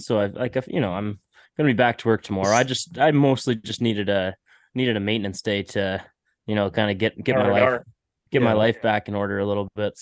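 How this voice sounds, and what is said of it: Congested, stuffy nasal voice. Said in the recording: “I've never been so congested ... my nose is so, you can probably hear it in my voice”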